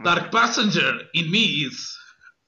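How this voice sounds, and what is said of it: Yoda impression. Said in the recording (Portuguese): “a minha tradicional imitação de Yoda ... Isto é a minha melhor imitação do Yoda”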